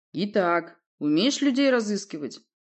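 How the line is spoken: Stern question. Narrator (Russian): строго спросил князь

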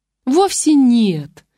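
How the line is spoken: Joyful full-volume shout, older woman. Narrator (Russian): радостно закричала во всю мощь свекровь

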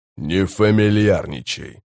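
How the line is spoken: Calm. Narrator (Russian): спокойно сказал Баральт

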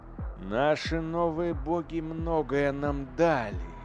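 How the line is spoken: Drawl. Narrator (Russian): протянул Эйдолон

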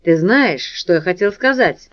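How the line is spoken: Grumbled. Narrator (Russian): буркнул Морт

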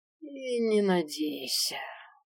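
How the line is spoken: Lazy drawl. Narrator (Russian): протянул Свен, вальяжно потягиваясь

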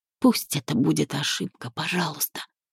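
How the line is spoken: Whisper. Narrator (Russian): прошептала в пустоту

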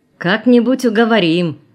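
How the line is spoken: Laughing. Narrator (Russian): засмеялся Краснов

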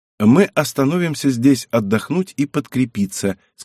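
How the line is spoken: Plain. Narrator (Russian): сказала княгиня

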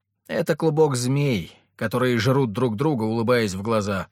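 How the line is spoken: Grumbling. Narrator (Russian): проворчала Ангелина

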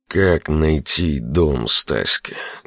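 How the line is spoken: Muffled question. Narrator (Russian): глухо спросил Огнецвет

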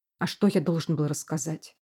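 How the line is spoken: Angry blurt. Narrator (Russian): сердито выпалил я

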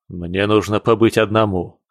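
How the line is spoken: Sharp, abrupt. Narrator (Russian): говорит он резко

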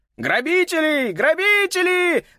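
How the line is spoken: Twins shouting over each other. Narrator (Russian): наперебой кричали близнецы

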